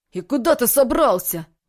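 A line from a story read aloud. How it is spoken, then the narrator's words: Indignant hiss. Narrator (Russian): возмущенно прошипел Вениамин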